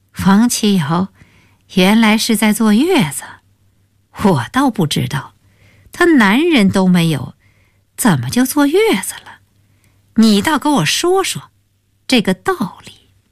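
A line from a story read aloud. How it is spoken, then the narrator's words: Mother sneering repeatedly. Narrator (Chinese): 他母亲便连连冷笑道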